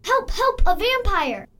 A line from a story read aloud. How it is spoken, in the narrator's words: screamed and yelled